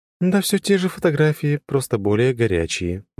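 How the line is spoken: Sighing. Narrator (Russian): вздохнула она

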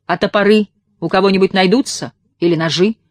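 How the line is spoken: Booming. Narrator (Russian): прогремел Егор

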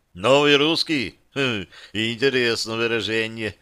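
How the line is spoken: Chuckling. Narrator (Russian): парень хохотнул

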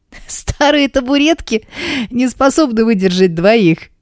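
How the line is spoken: Speaking while gasping with laughter. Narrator (Russian): всхлипывая от смеха, произношу

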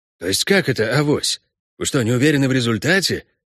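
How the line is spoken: Said in confusion. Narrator (Russian): промолвил Геларди, растерянно

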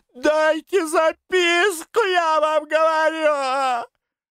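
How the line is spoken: Tearful shout. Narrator (Russian): крикнула Вера уже со слезами

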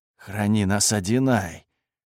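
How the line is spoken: Panicked whisper. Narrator (Russian): услышал я панический шепот Декса

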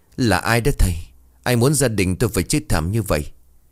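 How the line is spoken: Frightened trembling voice. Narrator (Vietnamese): Cô Hiên hoảng sợ, giọng run rẩy

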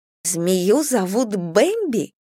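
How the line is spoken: Squeak. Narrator (Russian): пискнула я

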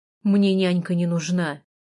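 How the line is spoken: Rude irritated. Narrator (Russian): грубо сказал он, обдав меня раздраженным взглядом

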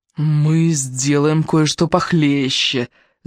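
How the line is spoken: Growl. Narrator (Russian): зарычал Уоррен

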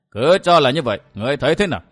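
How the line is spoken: Sudden loud laughter. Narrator (Vietnamese): Bạch Đế bỗng cười lớn

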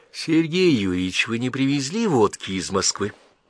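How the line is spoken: Sudden thoughtful tone. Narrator (Russian): Теперь он вдруг произнес задумчиво

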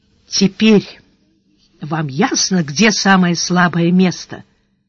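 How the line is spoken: Very quiet. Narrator (Russian): произнес канцлер совсем тихо

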